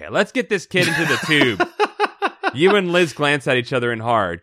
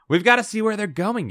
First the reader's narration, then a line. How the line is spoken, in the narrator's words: you whisper